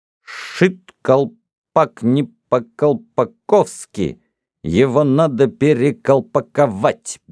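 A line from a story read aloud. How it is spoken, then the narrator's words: Crisp, fluent. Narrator (Russian): без запинки отчеканил Гордон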